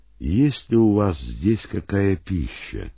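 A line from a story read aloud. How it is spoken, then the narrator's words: Calm question. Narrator (Russian): спокойно, словно ничего не произошло, он спросил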